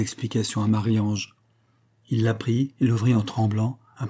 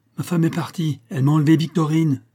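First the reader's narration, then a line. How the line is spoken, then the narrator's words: Exclamation. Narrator (French): s'écria-t-il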